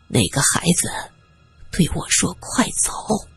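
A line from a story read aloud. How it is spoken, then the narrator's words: Whispering. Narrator (Chinese): 在他耳边低声说着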